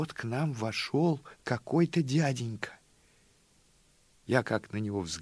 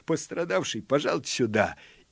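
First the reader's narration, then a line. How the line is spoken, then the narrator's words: Mocking laugh, shout. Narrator (Russian): извительно рассмеялся милиционер и крикнул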